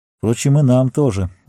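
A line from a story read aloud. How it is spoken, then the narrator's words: Sighing. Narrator (Russian): вздохнул Арагорн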